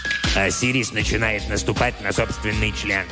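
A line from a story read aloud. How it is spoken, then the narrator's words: Grumble. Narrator (Russian): проворчал Себек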